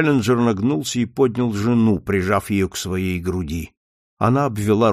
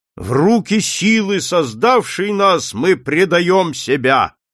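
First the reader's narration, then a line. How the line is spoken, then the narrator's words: Thunderous bark. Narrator (Russian): Громовым голосом рявкнул он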